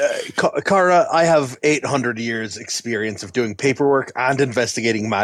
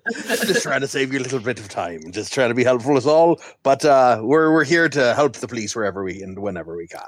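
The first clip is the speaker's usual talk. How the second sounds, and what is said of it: Imitates another person's accent. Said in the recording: “I'm doing your accent now. I don't know why I'm doing your accent.”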